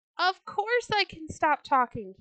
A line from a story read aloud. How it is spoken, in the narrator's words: he cried